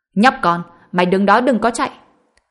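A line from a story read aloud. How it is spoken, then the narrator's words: Angry young woman yelling. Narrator (Vietnamese): hơi sừng sốt, nhân viên nữ trẻ tuổi đặc biệt nóng này giận dữ hét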